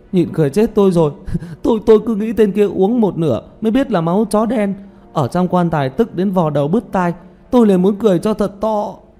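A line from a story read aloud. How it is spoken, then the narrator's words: Coughing, bursting into laughter. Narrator (Vietnamese): Tiểu Mã ho thêm vài cái, rồi đột nhiên xì một tiếng, bật cười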